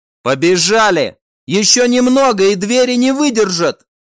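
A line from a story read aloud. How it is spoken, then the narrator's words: Shouting. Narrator (Russian): крикнул его коллега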